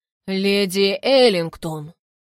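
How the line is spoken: Deep voice. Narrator (Russian): произнес своим глубоким голосом

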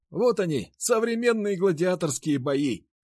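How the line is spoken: Shouting into ear. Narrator (Russian): прокричал мне на ухо Никита

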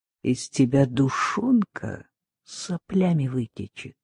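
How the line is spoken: Quiet friendly murmur from kitchen. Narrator (Russian): Из кухни доброжелательно тихо журчала

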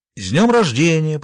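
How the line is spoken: Forced cheerful voice. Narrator (Russian): произнесла она, стараясь, чтобы голос прозвучал бодро

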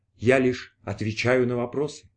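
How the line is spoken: Sad. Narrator (Russian): грустно произнес ответчик

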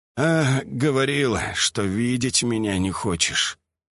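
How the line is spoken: Husky smirk. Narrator (Russian): с хрипотцой усмехнулся

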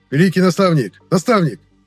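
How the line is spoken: Shouted. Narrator (Russian): прокричал кто-то

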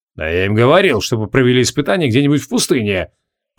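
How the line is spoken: Grumbling. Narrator (Russian): пробурчал Криол

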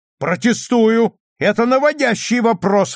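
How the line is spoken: Shout. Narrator (Russian): выкрикнул Мейсон

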